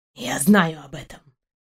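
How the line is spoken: Quiet dog's reply. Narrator (Russian): тихо ответил пес

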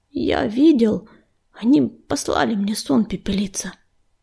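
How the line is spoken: Unsure mumble. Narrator (Russian): неуверенно пробормотал Огнезвезд

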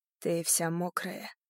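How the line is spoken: Breathy murmur, close. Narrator (Russian): пробормотал Блейк, дыша мне в шею

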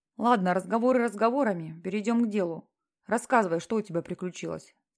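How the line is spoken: Calm. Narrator (Russian): сказал Джим спокойно

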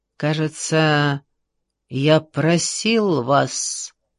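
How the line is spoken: Quiet chilling voice. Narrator (Russian): произнес он негромким голосом, от которого у всей компании прошел мороз по коже

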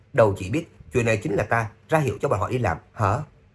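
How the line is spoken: Smug smiling. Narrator (Vietnamese): Thầy có phục mỉm cười, đắc ý nói

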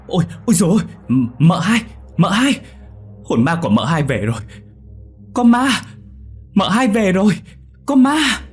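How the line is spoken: Terrified loud scream. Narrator (Vietnamese): Thằng Tú chợt nhớ ra điều gì rồi trợn ngược mắt mà hét lớn

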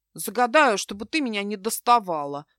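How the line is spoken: Grumbled. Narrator (Russian): пробурчал Эван

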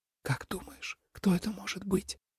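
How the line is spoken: Whisper. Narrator (Russian): шепнул Тобиас

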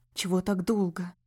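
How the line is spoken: Cautious hiss. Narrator (Russian): прошипел он с осторожностью

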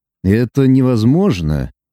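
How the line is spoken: Calm reply. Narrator (Russian): спокойно ответил Лука

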